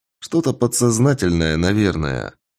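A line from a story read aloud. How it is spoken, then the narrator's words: Plain. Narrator (Russian): ответил я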